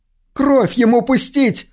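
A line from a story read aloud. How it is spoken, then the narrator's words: Woman's shout. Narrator (Russian): выкрикнул женский голос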